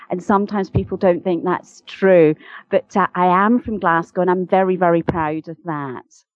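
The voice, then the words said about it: Posh Glaswegian Scottish accent. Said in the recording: “people may listen and hear a Scottish accent there ... I'm a posh Glaswegian”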